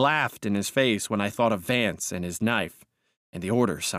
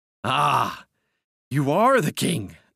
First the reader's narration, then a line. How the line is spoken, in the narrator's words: I cried